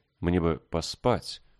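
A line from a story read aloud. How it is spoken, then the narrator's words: Uncertain. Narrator (Russian): она говорила неуверенно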